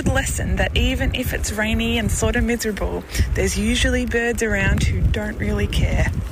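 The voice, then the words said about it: Australian accent. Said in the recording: “as you can tell from her accent, ... is from Australia”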